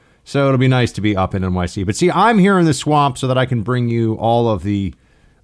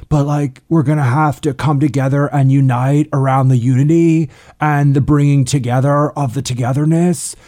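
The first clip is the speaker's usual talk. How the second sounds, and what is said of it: Impression of Beto O'Rourke. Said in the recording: “your Beto impersonation sounds a lot more what South Park makes Al Gore sound like”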